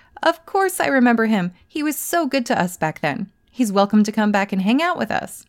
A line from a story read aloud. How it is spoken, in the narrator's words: As soon as his friend heard his name, they let out a hearty laugh and said